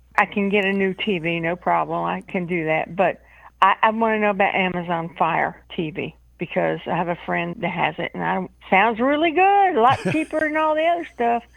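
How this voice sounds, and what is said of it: Georgia Southern US accent. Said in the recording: “I just love her Georgia accent.”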